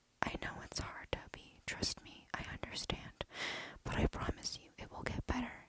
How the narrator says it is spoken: she said softly

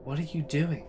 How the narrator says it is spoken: my voice trembled

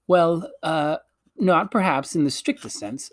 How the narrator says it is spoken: stammered Uncle Andrew

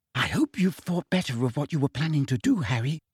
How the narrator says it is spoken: Hermione whispered

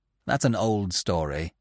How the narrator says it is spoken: Netla said curtly

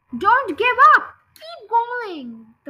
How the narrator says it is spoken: the fat bogus shouted

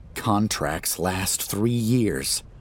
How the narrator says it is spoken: I murmur

